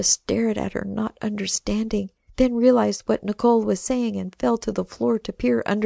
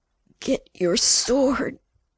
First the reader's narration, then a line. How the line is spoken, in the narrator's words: Nicole growled again, gasping for air as another contraction hit